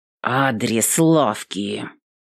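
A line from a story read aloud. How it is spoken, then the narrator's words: Through gritted teeth. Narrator (Russian): Сквозь зубы проговорила Эвелин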